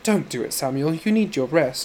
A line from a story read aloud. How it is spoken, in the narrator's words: she said in a silken, pouty voice